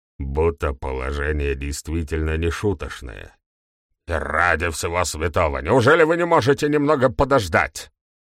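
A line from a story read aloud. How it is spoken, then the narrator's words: Impatient bark. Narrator (Russian): рявкнул сэр Генри, наименее терпеливый из всех людей, которых знал Макс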